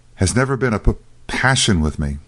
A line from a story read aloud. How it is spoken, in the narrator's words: gasped the doctor